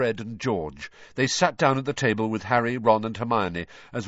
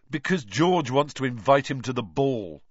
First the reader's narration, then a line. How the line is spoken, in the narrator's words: said Fred sarcastically